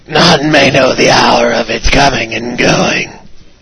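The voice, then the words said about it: Raspy scary character voice. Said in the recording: “my scary voice ... I think you have emphysema”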